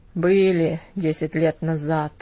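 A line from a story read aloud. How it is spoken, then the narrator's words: Grumbled. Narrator (Russian): пробурчал он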